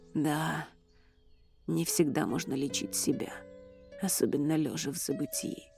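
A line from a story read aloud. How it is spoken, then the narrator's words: Whisper. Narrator (Russian): прошептал Эрик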